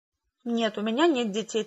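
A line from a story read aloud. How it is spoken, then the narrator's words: Hurried answer. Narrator (Russian): торопливо ответила я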